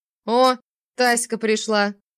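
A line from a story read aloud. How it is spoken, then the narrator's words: Smirking, loud hiccup. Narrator (Russian): ухмыльнулся отчим и громко икнул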